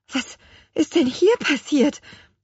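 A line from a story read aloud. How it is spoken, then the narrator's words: Trembling voice. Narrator (German): fragte sie mit bebender Stimme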